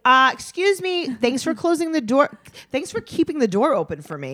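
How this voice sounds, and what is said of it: Passive-aggressive older woman voice. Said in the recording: “Cece's like a passive aggressive 65-year-old woman. ... do an impression.”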